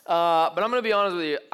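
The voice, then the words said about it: Strained, tired voice. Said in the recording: “My voice is taxed. Like, it's hard to project right now.”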